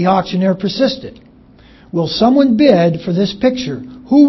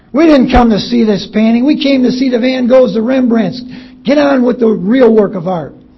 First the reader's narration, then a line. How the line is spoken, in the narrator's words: Another voice shouted indignantly